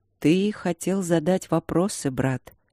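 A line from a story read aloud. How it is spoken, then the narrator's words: Soft quiet old voice. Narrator (Russian): мягко и тихо сказал старый служитель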